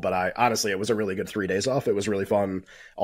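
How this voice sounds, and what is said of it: Congested, sick-sounding voice. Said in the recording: “I'm going to sound terrible during the show because I have a bad cold.”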